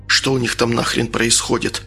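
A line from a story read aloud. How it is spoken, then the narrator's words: Whispered. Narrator (Russian): шепнул Антону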